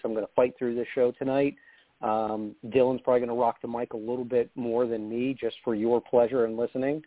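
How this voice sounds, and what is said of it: Hoarse, strained voice. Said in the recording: “I am losing my voice ... If I do sound a little hoarse”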